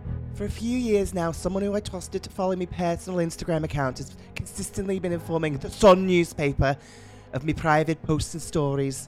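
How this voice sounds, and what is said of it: Poor attempt at another woman's accent. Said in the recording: “I'm going to try and do the whole thing in her accent, which I don't think is going to work very well ... Oh my God, I'm turning into that Y-bird from Playground. I'm just going to do it in my own accent.”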